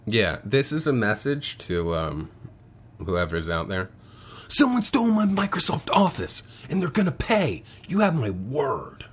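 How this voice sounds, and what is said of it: Nicolas Cage impression. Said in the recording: “I can't do Nick Cage.”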